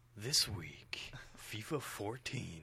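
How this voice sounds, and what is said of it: Dramatic announcer voice. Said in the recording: “in a dramatic announcer voice? ... No, that's pretty good.”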